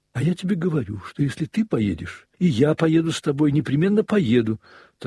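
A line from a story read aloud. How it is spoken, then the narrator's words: Hurried, angry woman. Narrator (Russian): торопливо и гневно заговорила она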